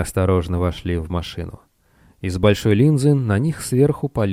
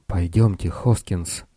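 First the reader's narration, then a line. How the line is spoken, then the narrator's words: Whisper. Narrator (Russian): прошептал Лестер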